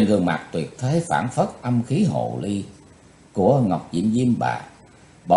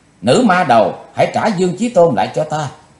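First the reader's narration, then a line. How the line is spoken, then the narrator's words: Shouting. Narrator (Vietnamese): Quỳnh Giao đã hét lên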